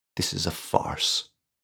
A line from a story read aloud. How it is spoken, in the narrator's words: Galloway mumbled